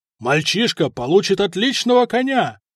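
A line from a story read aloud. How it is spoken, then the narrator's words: Shouted to crowd. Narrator (Russian): крикнул он толпе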